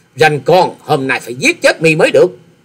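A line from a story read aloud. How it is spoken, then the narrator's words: Loud shout. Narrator (Vietnamese): hét to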